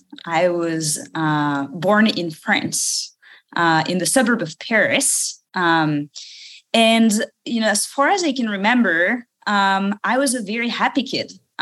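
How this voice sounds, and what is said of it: French accent. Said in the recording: “maybe you can tell from my accent”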